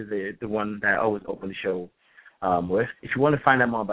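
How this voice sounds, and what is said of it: Usual voice. Nothing is said of it.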